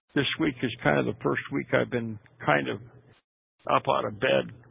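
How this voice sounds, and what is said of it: Hoarse, weakening voice from illness. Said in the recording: “I'm still recovering from pneumonia right now, and you can probably tell in my voice that I'm starting to lose my voice”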